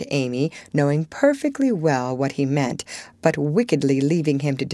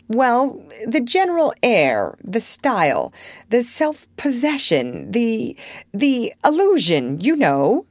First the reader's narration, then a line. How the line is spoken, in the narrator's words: laughed Laurie